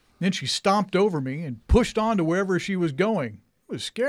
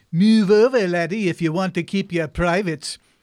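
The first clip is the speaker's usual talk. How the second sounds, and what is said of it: Imitated Scottish accent. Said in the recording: “lady with a Scottish accent ... I sure do love to hear that Scottish accent of hers”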